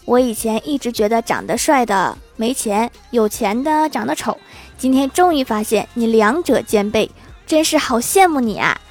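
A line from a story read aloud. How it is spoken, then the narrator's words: Light smile. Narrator (Chinese): 李逍遥淡淡一笑，随后他说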